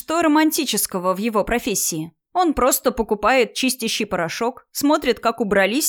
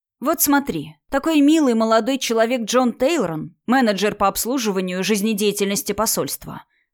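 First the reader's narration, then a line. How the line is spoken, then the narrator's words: Plain. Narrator (Russian): сказал Садхир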